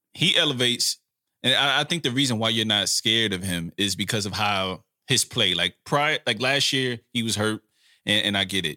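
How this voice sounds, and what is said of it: Imitates another person's voice. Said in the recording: “in my Skip Bayless voice”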